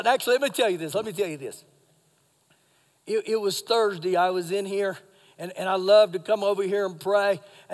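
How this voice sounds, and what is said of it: Slightly hoarse, froggy voice. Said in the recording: “my voice is a little froggy. I've been doing some crazy shouting. I've been shouting.”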